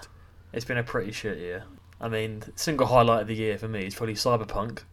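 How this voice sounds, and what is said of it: Sarcastic delivery. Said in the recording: “That was sarcasm,”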